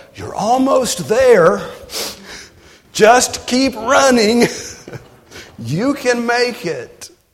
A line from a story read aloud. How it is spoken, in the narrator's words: you have to yell